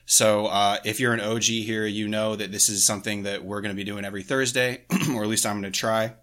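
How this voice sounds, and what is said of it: Slightly off voice from illness. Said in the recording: “I'm also feeling a little under the weather, so if my voice is a little weird”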